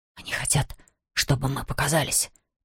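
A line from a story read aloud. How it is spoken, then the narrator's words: Whisper. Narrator (Russian): прошептал Равендер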